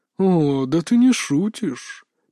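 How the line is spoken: Drawling vampire. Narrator (Russian): протянул первый кровосос

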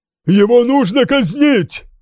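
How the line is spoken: Shouted cry. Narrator (Russian): выкрикнул епископ Эркенвальд

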